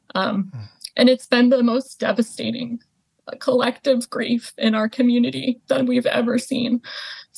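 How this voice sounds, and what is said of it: Choked-up, emotional voice. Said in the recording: “choking up now ... you can hear in my voice, it's just immense, immense pain.”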